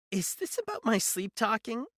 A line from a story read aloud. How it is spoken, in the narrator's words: She laughed, a hollow, lifeless sound